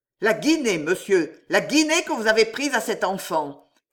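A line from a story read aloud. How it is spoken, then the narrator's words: Exclaimed. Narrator (French): s'écria M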